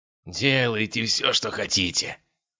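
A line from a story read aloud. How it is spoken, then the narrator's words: Hoarse wheeze. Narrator (Russian): прохрипел убийца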